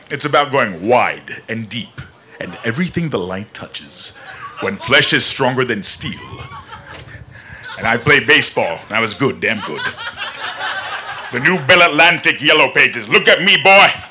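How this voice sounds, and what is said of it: James Earl Jones impression as Mufasa. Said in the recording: “Your James Earl Jones impression is quite exciting. ... I want you to do a little Mufasa for us.”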